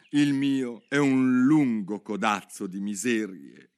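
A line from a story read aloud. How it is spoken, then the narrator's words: Sighing. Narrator (Italian): disse il topo sospirando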